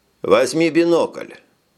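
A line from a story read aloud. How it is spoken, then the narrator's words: Plain. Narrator (Russian): сказал он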